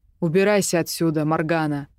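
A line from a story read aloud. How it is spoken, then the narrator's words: Barked. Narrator (Russian): рявкнул Драван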